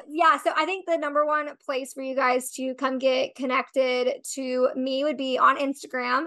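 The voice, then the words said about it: Hoarse, strained voice. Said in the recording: “I'm like losing my voice”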